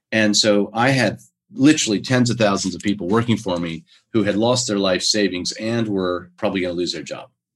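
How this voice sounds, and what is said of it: American accent. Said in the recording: “my accent's American, but I've been in Australia for 27 years”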